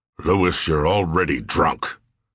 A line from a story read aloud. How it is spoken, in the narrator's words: Sears said gruffly